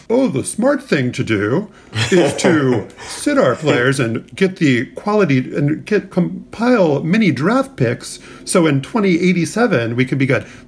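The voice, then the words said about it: Imitates another person's voice. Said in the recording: “doing an impersonation of me ... This is an impression of, this is ... doing me.”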